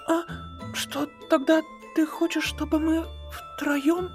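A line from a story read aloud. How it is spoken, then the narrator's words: Soft whisper. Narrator (Russian): Рудеус мягко зашептал на ушко Фитцу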